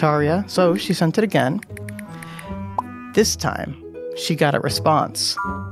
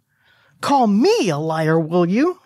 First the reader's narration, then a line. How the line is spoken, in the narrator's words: She shouted